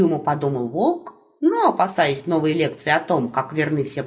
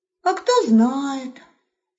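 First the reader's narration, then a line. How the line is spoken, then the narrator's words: Wolf's patient sigh. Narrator (Russian): терпеливо вздохнул волк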